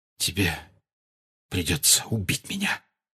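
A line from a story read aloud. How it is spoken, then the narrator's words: Whisper. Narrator (Russian): прошептал Сириус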